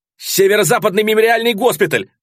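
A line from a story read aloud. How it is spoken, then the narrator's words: Yelling. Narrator (Russian): завопил я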